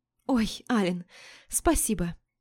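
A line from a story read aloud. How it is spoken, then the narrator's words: Breathy smiling. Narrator (Russian): продолжая улыбаться, выдохнула я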